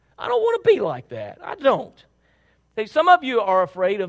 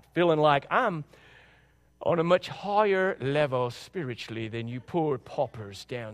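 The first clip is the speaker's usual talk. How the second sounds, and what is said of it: Put-on accent. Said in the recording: “There's that accent again.”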